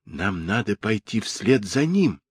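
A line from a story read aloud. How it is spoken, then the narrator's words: Whisper. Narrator (Russian): прошептал Джулиан Дику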